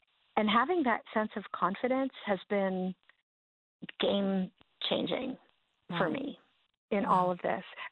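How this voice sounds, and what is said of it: Scratchy voice. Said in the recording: “my voice is still scratchy because of the, whatever they call it, the breathing tube that they put down your throat”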